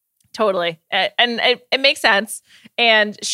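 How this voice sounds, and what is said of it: Usual voice. Nothing is said of it.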